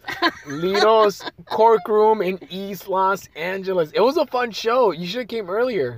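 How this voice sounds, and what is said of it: Rough, strained voice. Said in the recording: “My voice is fucked up.”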